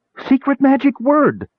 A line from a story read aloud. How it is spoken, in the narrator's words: she shrieked